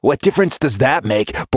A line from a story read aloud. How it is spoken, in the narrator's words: Borderatch snaps